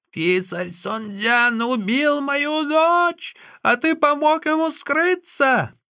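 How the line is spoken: Old woman shouting. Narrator (Russian): старуха закричала

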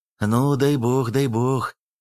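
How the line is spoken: Warm breathy tone. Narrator (Russian): потеплевшим тоном выдохнул сибиряк

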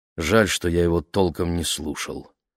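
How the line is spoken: Sigh. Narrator (Russian): вздохнул мистер Уокер

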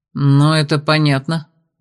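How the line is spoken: Grumbling mutter. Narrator (Russian): буркнул я

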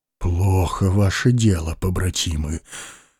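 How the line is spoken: Sighing. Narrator (Russian): вздохнул Владимир Ильич

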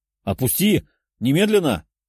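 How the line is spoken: Harsh bark. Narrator (Russian): рявкнул шатен

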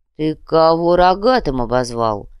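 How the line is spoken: Lazy, languid asking. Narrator (Russian): Лениво осведомился размягший дурич

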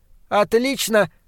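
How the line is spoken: Shouted. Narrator (Russian): крикнула она

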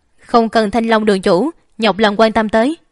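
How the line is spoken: Cold, curt voice. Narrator (Vietnamese): Ánh mắt Già Trạch không khỏi lạnh lùng, chỉ lạnh giọng nói

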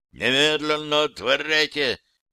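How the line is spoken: Militant menacing bark. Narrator (Russian): добавили гости, рявкнув, но очень, очень воинственно и грозно

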